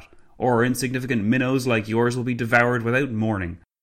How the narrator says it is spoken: Clavel spat

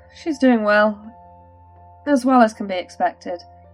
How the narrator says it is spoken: Micah sighed

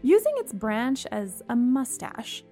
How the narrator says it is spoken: she giggled quietly to herself

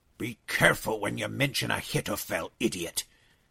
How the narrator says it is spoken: hissed Elez the Paltite

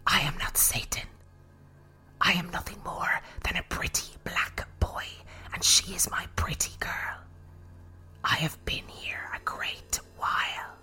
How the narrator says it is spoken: The voice again rose from within Elizabeth, and she hissed

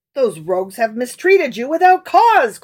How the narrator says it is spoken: cried

